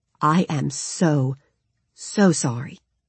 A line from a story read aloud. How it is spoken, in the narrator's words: he murmured, with such utter compassion and genuine sympathy